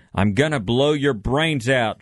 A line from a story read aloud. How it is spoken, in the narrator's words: she shouted to the burglar